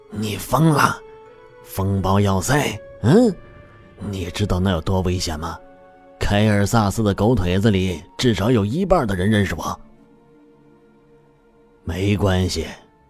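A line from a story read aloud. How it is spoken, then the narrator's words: Strained hushed exclamation. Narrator (Chinese): 用压低至刚好能被对方听见的嗓音怪叫道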